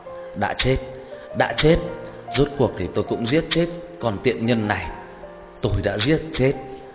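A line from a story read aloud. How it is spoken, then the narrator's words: Low whispering. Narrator (Vietnamese): bà ta chỉ đứng đó thì thào nói nhỏ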